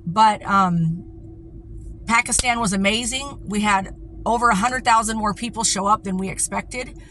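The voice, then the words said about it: Hoarse, partly lost voice. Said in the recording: “Little fried, you can see, lost my voice a little bit.”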